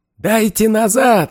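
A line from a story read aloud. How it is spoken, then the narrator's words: Yell. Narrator (Russian): заорал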